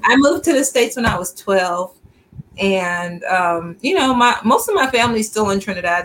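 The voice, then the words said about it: Trinidadian accent. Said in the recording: “you hear the accent? ... I'm originally from Trinidad and Tobago”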